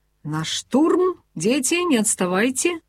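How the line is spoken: Cheerful announcement. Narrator (Russian): весело объявил нам

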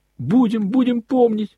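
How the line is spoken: Boys shouting again. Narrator (Russian): прокричали опять мальчики

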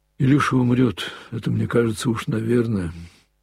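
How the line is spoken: Sad reply. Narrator (Russian): грустно ответила Леша

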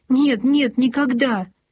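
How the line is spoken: Cried out tearfully. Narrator (Russian): Сквозь слезы выкрикнула

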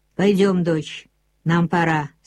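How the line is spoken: Plain. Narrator (Russian): сказал Матис

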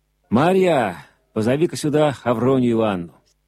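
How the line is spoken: Tired stranger shouting. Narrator (Russian): Утомив себя, незнакомец крикнул

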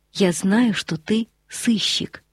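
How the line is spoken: Whispered in ear. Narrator (Russian): Корвин шепнул на ухо Фульвию

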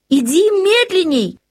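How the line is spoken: Shouted. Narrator (Russian): крикнула она мужу

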